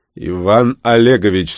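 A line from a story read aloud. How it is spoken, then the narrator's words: Growling, slightly raised voice. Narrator (Russian): слегка повысив голос, рыкнул Климов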